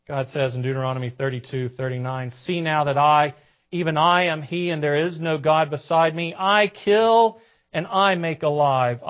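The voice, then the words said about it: Southern American accent. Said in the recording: “forgive my southern accent.”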